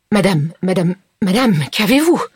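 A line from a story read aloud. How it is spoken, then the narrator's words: Stammered. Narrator (French): Elle balbutia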